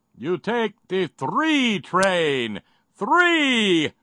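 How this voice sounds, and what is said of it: Poor Count character impression. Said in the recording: “my terrible count impression”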